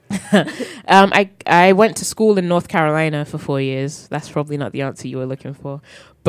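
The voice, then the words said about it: English accent, South London and central England. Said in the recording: “I can tell that you have an accent ... The accent's from England. I grew up in South London, Croydon, but then I also grew up in Northampton, England, which is central England, so it's a mixture of the two.”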